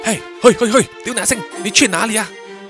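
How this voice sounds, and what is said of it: Whispered urgent call. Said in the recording (Chinese): “小声的叫住他说”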